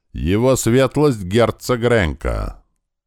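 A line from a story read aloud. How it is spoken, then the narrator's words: Loud old man. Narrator (Russian): какой-то старичок громким голосом произнес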